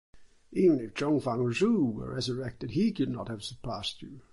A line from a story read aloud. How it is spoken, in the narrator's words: exclaimed the astonished commissioner